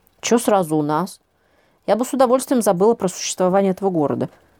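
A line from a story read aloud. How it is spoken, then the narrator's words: Grumbling while getting up. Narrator (Russian): проворчала я, поднимаясь с дивана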